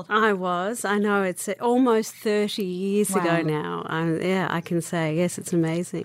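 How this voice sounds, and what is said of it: Australian accent. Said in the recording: “In Australia, yes, of course. The beautiful accent.”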